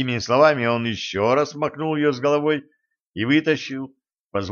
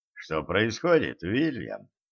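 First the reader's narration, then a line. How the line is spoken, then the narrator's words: Calm inquiry. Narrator (Russian): он спокойно поинтересовался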